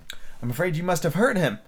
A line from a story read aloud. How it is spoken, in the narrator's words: she said in a trembling voice